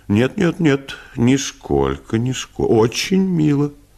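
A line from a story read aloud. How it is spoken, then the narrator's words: Embarrassed, guilty tone. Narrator (Russian): Он сконфузился и сказал таким виноватым тоном, как будто не барыня, а он сам написал этот монолог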